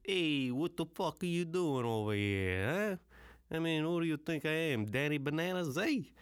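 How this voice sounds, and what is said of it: Stereotyped put-on Italian accent. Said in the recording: “anybody can do an Italian accent ... A straight-up stereotype”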